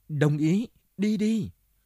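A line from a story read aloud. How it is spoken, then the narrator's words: Shouting. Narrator (Vietnamese): Kỳ cũng hét lên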